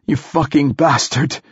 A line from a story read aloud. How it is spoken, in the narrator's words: gasped